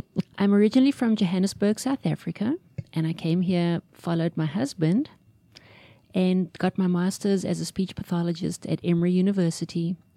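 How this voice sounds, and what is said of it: Slight South African accent. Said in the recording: “You can probably tell I have a slight accent.”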